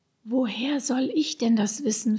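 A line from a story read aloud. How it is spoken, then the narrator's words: Whispered. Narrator (German): flüsterte Sebastian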